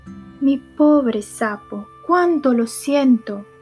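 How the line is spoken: Sorry exclaiming. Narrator (Spanish): exclamó

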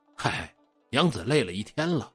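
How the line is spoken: Smiling. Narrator (Chinese): 张小生一笑

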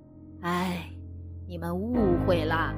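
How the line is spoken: Old man sighing. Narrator (Chinese): 乔老汉叹息道

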